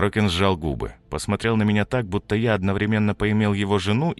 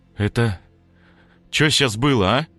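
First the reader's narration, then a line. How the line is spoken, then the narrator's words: Trembling question. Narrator (Russian): Дрожащим голосом спросил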